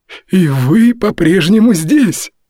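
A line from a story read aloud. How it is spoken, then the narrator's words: Enthusiastic exclamation. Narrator (Russian): с энтузиазмом воскликнул Мори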